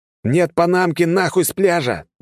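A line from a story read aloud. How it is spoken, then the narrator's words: Yelled. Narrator (Russian): заорал я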